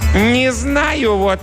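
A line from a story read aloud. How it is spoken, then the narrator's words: Loud announcement. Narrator (Russian): громко объявил он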